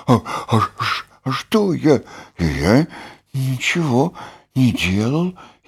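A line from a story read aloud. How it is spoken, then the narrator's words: Frightened whisper. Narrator (Russian): Испуганно прошептал окончательно проснувшийся Бараш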